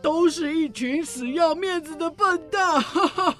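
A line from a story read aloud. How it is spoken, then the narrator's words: Laughing. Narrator (Chinese): 公爵大笑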